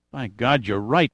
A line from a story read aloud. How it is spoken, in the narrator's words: murmured Giordino